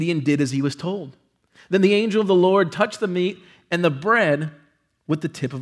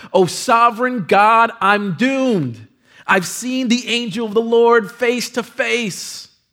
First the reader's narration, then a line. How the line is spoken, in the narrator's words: realized that it was the angel of the Lord, he cried out